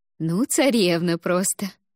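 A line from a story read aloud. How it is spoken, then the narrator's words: Laughing. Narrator (Russian): рассмеялась Вета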